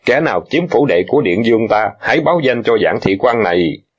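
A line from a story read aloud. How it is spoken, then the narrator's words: Cold laugh. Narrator (Vietnamese): cười lạnh lùng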